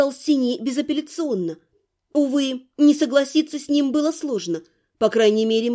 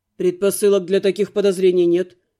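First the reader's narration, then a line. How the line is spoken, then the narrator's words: Grumbling mutter. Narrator (Russian): буркнул Каст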